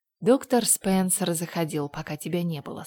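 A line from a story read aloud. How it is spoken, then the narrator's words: Plain. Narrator (Russian): сказала Марилла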